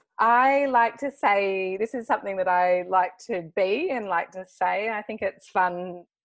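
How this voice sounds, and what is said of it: Australian accent. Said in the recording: “your Australian accent's so much cuter ... Do it in your little accent.”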